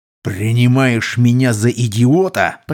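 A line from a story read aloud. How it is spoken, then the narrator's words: Growled. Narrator (Russian): прорычал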